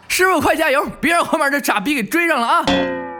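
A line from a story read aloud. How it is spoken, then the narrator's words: Shouting. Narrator (Chinese): 那个人又接着喊道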